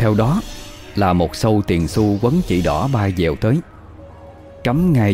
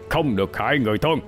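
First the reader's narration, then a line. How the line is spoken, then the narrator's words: Stern voice. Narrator (Vietnamese): một tiếng nói nghiêm nghị vang lên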